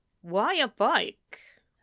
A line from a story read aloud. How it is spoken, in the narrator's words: they asked